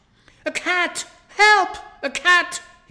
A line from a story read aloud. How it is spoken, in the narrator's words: he shouts